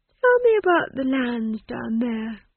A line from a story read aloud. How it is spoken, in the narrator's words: she said lazily